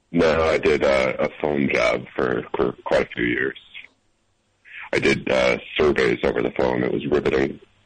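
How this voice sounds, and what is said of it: Deep announcer-like voice. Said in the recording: “announcer voice”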